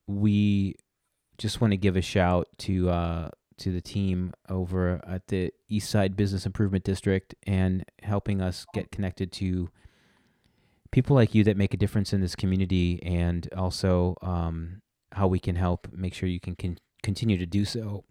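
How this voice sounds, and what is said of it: Voice a little choked up. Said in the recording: “are you getting choked up? ... I think I'm getting a little choked up,”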